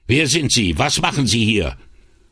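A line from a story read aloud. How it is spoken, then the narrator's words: Angry male thundering. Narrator (German): donnerte eine zornige Männerstimme hinter ihm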